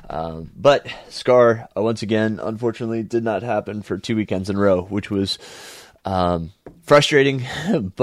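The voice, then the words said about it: Nasal, congested voice. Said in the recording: “I'm still a bit nasally. You probably hear it in my voice.”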